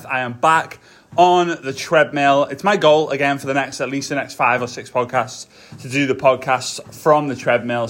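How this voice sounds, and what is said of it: Out of breath speaker. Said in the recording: “I am kind of out of breath.”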